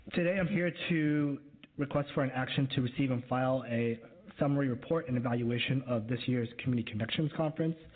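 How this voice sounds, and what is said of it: Voice with a slight cold. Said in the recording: “I have a little bit of a cold today”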